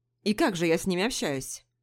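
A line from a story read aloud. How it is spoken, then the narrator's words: Plain. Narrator (Russian): спросил Пижон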